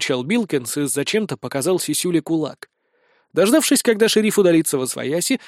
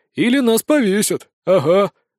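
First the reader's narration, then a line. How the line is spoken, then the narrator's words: Sighing. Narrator (Russian): вздохнул Спирт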